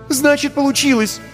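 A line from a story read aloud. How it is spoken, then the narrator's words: Exclaiming. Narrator (Russian): воскликнула Вика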